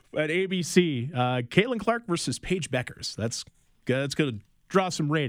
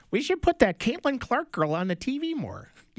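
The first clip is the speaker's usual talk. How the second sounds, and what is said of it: Put-on Minnesotan Midwest accent. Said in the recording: “my Minnesotan kind of, I'm not even from Minnesota, but I pulled up my Midwest aunt accent”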